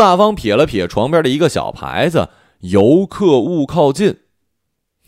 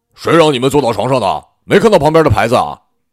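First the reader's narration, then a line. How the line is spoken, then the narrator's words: Loud shout. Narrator (Chinese): 大声叫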